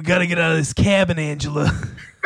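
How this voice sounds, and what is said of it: Imitates another person's voice. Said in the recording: “That was that was perfect. That worked. ... We've got the Danny DeVito.”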